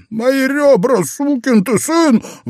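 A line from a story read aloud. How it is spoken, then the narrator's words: Breathless pained howl. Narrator (Russian): взвыл Стёнан, как только смог отдышаться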